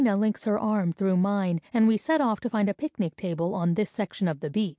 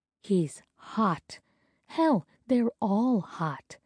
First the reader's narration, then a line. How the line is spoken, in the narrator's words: she whispers